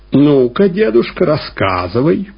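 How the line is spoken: Loud, brisk command. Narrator (Russian): громко и бодро приказал Реннинкампф

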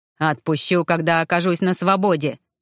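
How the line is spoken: Menacing bark. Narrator (Russian): грозно рявкнул целитель

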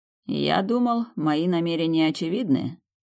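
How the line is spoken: Teasing chuckle. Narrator (Russian): дразня хохотнул несносный принц

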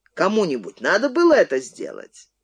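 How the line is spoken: Sarcastic laugh. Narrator (Russian): Антипов саркастически рассмеялся

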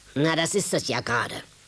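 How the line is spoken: Santa's growl. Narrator (German): knurrte der Weihnachtsmann

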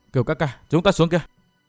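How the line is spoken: Soft voice. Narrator (Vietnamese): Tiểu Tây Thi khẽ giọng

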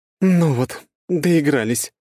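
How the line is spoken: Muttered grumble. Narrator (Russian): буркнула Круанна

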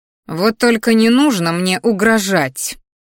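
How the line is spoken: Growled. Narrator (Russian): рыкнула брюнетка

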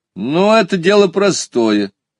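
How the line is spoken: Boy's cheerful reply. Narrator (Russian): радостно отозвался парнишка

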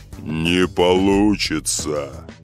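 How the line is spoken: Menacing golden cup. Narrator (Russian): грозно сказал самый большой, красивый золотой кубок

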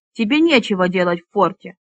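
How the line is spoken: Irritable declaration. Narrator (Russian): заявил Мирон раздражительным тоном

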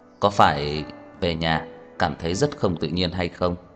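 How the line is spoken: Smiling teasing question. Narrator (Vietnamese): Tần Vĩ Nghiệp đột nhiên mỉm cười hỏi

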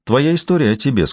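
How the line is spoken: Plain. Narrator (Russian): сказала она

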